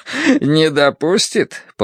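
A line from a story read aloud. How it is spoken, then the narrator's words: Repeating after laughter. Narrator (Russian): повторил поэт, закончив смеяться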